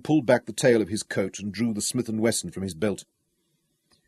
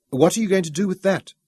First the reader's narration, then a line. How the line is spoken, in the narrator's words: Bella asked nervously